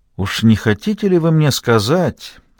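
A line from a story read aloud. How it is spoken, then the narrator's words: Minister, smooth, hiding indignation. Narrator (Russian): вкрадчиво проговорил министр, стараясь скрыть свое негодование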